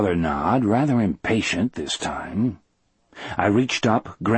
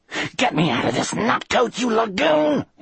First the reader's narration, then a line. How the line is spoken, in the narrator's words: he spat